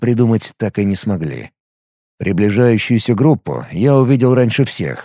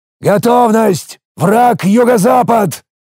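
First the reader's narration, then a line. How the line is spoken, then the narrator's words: Loud growl. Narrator (Russian): громко рыкнул я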